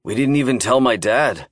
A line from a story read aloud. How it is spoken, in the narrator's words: he said